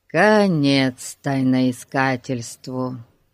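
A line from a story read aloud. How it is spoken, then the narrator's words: Sad. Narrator (Russian): печально проговорил Ларри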